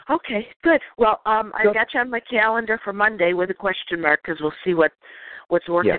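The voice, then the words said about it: Strained, unwell-sounding voice. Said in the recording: “your voice is a little bit stressed”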